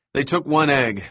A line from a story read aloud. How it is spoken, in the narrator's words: Malcolm said